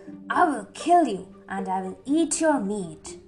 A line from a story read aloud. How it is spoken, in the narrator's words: He said angrily